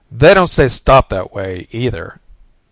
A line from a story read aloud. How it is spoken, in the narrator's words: said Peter harshly